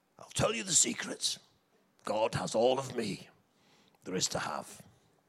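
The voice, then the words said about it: Imitates another person's voice. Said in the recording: “that is a brilliant impression.”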